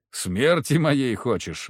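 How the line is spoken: Sigh. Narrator (Russian): вздохнул я

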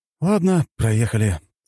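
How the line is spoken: Sigh. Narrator (Russian): вздохнул я

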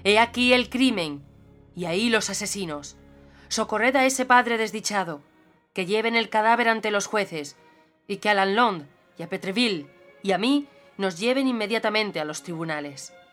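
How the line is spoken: Powerful exclamation. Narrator (Spanish): Baduin exclamó con voz potente

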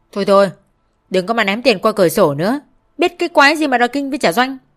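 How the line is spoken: Sarcastic. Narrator (Vietnamese): Anh ta mỉa mai chị

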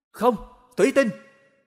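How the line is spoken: Loud shout. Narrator (Vietnamese): Sơn Tinh hét lớn

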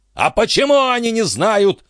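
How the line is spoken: Furious shout. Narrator (Russian): в ярости закричал дядюшка Антифер

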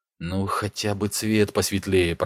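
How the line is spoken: Muttered. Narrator (Russian): пробормотал Ник

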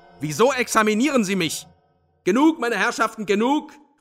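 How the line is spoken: Mighty shout. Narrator (German): rief allmächtig Sverkov

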